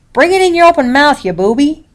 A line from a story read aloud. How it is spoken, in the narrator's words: I snapped